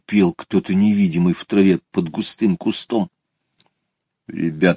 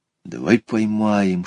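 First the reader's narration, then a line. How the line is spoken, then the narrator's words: Whisper. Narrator (Russian): шепнул Петя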